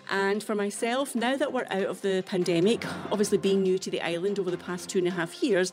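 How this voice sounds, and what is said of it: Scottish accent. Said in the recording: “as you can tell from my accent. I'm obviously not from Alberta, but it definitely reminds me very much of Scotland”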